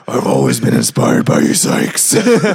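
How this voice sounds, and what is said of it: Growly death-metal style voice. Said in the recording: “your best Cannibal Corpse impression ... That was my Christian Bale”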